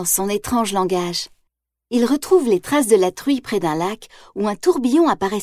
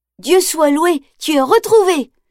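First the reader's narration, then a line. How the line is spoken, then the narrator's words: Boy exclaiming. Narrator (French): s'exclame le garçon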